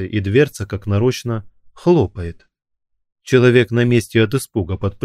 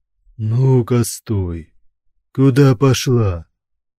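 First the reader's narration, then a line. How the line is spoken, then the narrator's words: Booming rough male bass. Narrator (Russian): Прогремел грубый мужской бас за спиной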